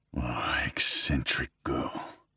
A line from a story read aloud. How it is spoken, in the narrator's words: mutters to himself